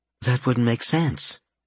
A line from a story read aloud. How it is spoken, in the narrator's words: Fluffball murmured